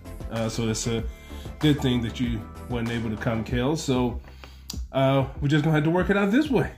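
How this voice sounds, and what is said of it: Sick, under-the-weather voice. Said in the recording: “Excuse me if you can't hear it in my voice. I'm kind of under the weather.”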